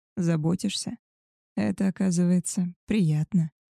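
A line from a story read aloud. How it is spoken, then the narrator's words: Tender. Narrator (Russian): нежно произнес он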